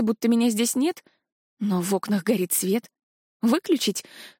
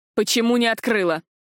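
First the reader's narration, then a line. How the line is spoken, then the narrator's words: Growled. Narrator (Russian): прорычал Тарграш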